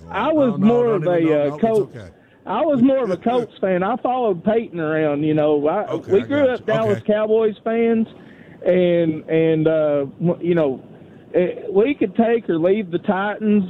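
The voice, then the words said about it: Strong regional accent. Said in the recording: “I love your accent ... what an accent that guy's got”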